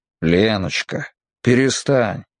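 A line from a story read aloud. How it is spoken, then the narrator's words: Hoarse low voice. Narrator (Russian): сказал он хрипловатым низким голосом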